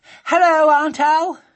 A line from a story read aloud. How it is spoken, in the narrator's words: she said breathlessly